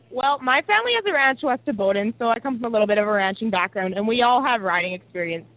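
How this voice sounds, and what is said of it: Canadian accent. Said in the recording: “the best Canadian accent. You definitely have that. ... You definitely have the best Canadian accent.”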